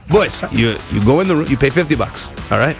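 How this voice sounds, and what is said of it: Vague foreign accent, French-Spanish-Greek mix. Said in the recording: “I don't know what accent I'm doing, by the way. ... French, but I don't know what it is. It was like French, Spanish, I don't know. A little Greek in there”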